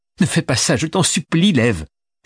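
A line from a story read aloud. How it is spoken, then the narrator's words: Woman exclaiming. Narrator (French): s'écria-t-elle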